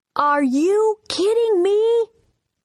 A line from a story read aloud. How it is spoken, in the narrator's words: John yelled